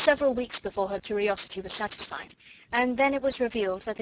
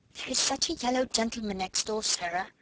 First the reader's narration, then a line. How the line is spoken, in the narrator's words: Lottie whispered